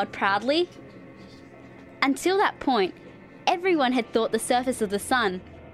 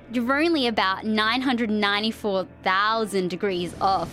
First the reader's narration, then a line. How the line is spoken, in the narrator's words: said